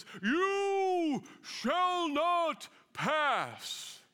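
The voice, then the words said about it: Imitates a wizard's commanding voice. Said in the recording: “pretty good impersonation”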